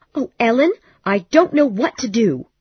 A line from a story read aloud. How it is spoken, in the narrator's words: she cried